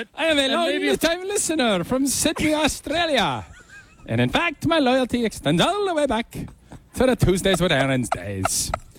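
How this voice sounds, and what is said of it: Attempted Australian accent sounding Irish. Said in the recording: “I don't know if I have an Aussie accent. ... That was closer to Irish. ... This is Irish.”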